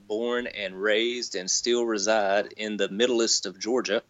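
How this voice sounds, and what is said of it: Southern US accent. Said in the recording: “I'm a Southern boy, if you can't tell, if the voice doesn't give it away”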